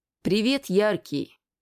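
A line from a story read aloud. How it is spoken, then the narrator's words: Gloomy young woman. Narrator (Russian): мрачно произнесла девушка-игрок Славиолия Лолипоп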